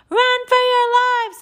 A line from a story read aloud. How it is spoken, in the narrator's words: screamed